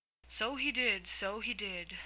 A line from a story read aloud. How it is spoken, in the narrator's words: said the griffin, sighing in his turn